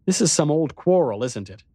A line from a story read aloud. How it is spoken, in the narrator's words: I said impatiently